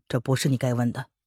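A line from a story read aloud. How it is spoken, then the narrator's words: Calm flat interruption. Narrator (Chinese): 魏子峰淡淡的打断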